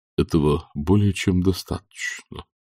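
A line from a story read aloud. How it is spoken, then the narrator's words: Barely audible. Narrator (Russian): чуть слышно сказал Виттоллер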